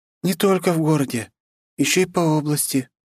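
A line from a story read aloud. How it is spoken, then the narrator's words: Sad. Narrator (Russian): грустно проговорила она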